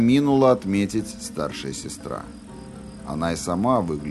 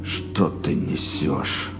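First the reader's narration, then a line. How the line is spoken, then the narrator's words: Grumbling. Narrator (Russian): Пробурчал Роланд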